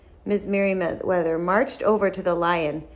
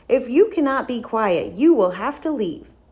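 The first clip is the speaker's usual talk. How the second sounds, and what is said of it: Stern voice. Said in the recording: “she said in a stern voice.”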